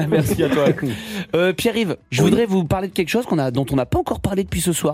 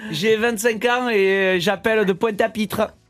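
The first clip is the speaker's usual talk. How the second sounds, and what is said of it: Put-on regional accent. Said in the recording (French): “c'est un bel accent”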